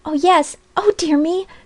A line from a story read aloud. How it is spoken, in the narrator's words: cried poor Polly